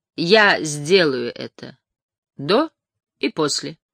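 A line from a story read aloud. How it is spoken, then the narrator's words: Loud. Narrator (Russian): кто-то громко сказал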